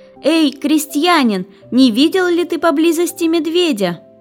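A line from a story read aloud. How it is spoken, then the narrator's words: Loud shout. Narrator (Russian): женщина громко закричала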